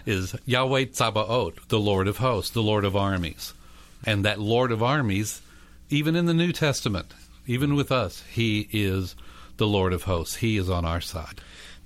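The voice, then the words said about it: Texas accent. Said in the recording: “with a Texas accent, I might add”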